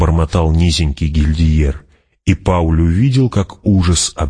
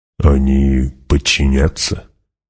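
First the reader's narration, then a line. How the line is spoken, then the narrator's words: Quiet question. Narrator (Russian): негромко спросил Гурни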